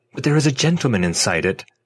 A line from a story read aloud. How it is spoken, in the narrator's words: I interrupted impatiently